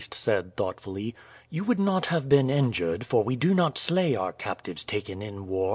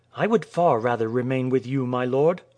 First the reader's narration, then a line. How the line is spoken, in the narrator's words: Amuba said eagerly